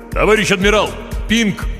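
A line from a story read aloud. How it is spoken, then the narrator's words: Mental shout. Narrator (Russian): мысленно крикнул Хор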